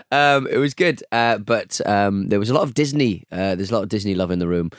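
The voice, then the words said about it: Strained, worn-out voice. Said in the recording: “Oh, my voice. ... that's why my voice is like this, because I drank Prosecco all day and night.”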